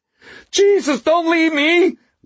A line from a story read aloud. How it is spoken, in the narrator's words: Waxy howled